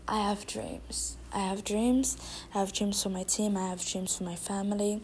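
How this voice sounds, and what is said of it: Thick foreign accent. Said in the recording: “This girl right there with a thick accent”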